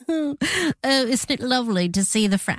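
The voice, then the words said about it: Put-on British accent. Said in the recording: “I was trying to do a British accent.”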